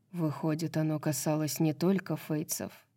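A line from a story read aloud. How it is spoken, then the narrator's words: Soft speech. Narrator (Russian): тихо сказал Рун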